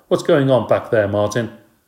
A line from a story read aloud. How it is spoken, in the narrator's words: Miss Victoria called out